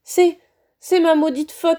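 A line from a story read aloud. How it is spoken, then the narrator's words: Muffled sobbing. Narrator (French): sanglota-t-il en plongeant son visage dans ses mains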